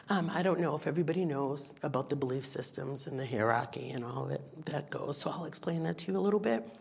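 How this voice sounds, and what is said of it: Voice affected by a cold. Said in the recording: “excuse me, I have a cold, I'm sorry.”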